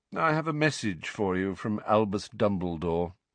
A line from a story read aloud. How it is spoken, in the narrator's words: Phineas Nigellus said lazily